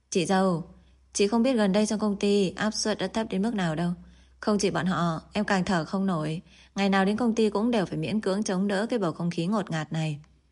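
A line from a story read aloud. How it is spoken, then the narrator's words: Sighing, self-mocking. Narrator (Vietnamese): Hứa Nhiên thở dài, tự giễu nói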